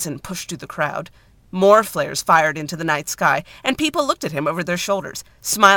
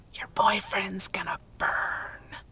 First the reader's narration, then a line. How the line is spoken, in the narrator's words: The postman leaned in and whispered